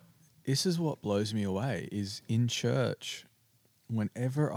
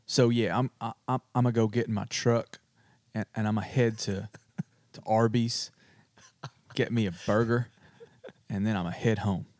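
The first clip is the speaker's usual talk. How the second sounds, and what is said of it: Put-on American accent. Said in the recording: “give us your best American accent... do an American accent... I'm pretty good at it”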